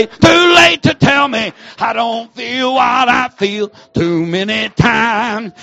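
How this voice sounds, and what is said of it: Shouting. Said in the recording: “I'm shouting.”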